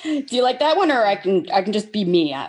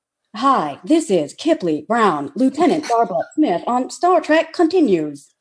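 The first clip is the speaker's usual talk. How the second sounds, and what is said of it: Robot voice. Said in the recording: “A robot voice.”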